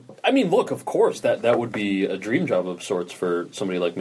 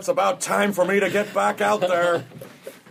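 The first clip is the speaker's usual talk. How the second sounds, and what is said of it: Craig Kilborn impersonation. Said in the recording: “my Craig Kilborn impersonation”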